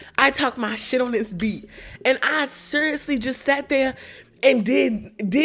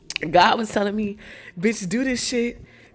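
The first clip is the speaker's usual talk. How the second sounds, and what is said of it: Lowered, deeper voice. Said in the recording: “let me lower my voice.”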